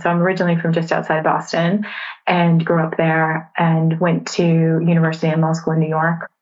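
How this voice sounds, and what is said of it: American accent. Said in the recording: “you'll detect an accent there from ... I'm from America, not a Canadian accent, an American accent.”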